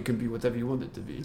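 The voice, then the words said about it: Poor put-on Polish accent. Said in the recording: “That's my shit Polish accent.”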